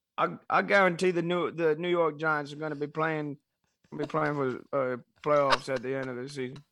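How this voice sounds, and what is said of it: Imitates another person's voice. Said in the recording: “your best Charles Barkley guarantee impression ... That's not the exact guarantee style that I was expecting, but it still works ... the actual Charles Barkley impersonation. That was actually pretty good ... That was not a terrible impersonation”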